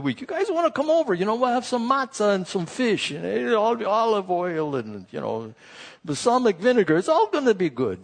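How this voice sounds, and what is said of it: Put-on Jewish or Italian accent. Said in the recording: “I don't know if that's Jewish accent or Italian”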